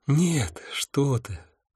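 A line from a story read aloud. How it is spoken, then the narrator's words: Sighing. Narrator (Russian): вздохнула сфинкс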